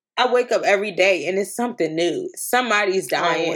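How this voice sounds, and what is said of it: Tearful, emotional crying voice. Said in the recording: “Clearly, I hear it in my voice. I'm up here fucking crying.”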